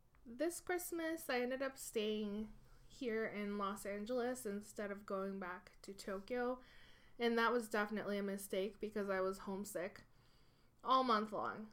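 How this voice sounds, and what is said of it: Nasal, congested voice from a cold. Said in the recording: “I have a little bit of a cold right now, so I'm sounding extra nasally today”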